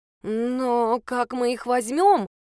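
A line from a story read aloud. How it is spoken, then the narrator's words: Uncertain. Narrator (Russian): неуверенно проговорила блондинка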